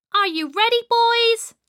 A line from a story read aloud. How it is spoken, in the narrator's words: shouted Peter